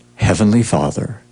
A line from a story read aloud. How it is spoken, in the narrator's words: he whispered